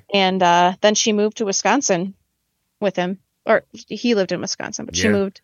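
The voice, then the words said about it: Wisconsin accent. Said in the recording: “That's where I live, if you couldn't tell from my accent.”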